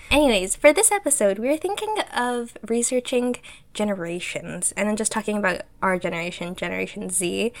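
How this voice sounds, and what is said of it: Slightly nasal, congested voice. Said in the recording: “my voice is a little wonky because I was a bit sick a while ago ... my voice might feel a little nasally”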